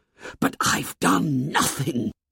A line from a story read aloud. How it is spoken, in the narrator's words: whispered Ralph urgently